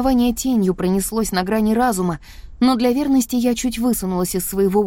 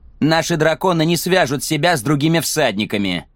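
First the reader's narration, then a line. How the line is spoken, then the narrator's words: Snapping. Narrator (Russian): огрызнулся Джек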